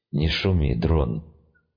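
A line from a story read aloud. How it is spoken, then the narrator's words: Gruff mutter, blind man. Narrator (Russian): буркнул слепой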